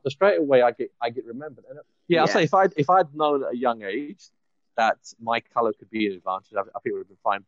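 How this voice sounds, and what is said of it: English London accent. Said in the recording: “being a brown person with an English accent ... I'm from London.”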